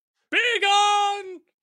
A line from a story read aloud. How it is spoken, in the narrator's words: I shouted